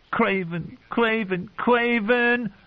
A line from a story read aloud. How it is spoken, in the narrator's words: He giggled hysterically